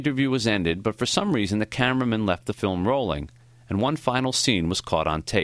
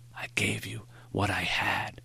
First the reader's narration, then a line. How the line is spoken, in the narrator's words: he whispered